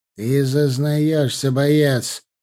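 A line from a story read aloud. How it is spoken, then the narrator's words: Gloomy, sinister drawl. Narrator (Russian): очень мрачно и даже зловеще протянул Рюмшин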